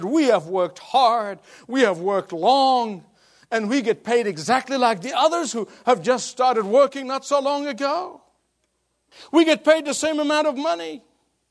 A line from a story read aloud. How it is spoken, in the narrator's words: They screamed, they said